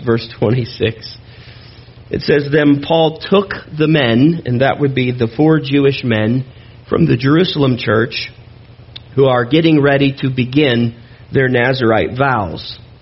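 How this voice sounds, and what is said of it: Strained, failing voice. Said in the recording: “my voice is going just very strongly this morning”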